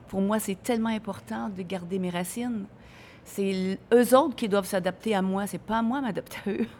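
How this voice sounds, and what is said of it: Québec French accent. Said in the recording (French): “je suis l'ambassadrice un peu du Québec là-bas parce que j'ai jamais perdu mon accent. J'ai toujours gardé mon accent.”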